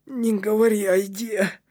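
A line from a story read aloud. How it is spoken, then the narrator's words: Longing moan. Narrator (Russian): простонал Кнут с тоской в голосе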